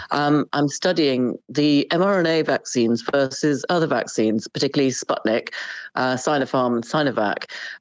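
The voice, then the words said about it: British accent. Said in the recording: “I'm in the UK. You can probably tell from my accent.”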